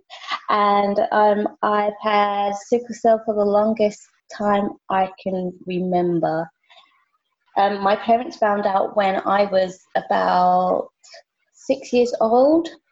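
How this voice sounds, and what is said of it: British accent. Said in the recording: “I live in the UK, as you can tell by my accent.”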